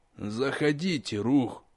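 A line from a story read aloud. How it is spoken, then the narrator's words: Tired voice behind door. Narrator (Russian): устало произнес из-за приоткрытой двери мастер Умдобр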